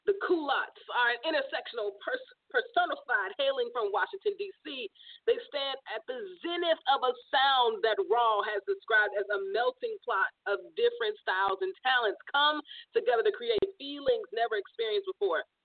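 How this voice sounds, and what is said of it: Announcer-style radio voice. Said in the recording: “Your radio voice ... My radio voice.”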